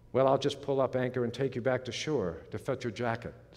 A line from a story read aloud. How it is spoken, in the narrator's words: said the man